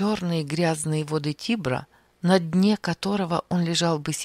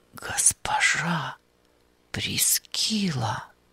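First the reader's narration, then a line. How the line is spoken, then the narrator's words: Whispered. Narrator (Russian): прошептал он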